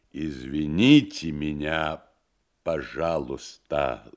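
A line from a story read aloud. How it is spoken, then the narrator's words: Foreign accent, clear words. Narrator (Russian): заговорил подошедший с иностранным акцентом, но не коверкая слов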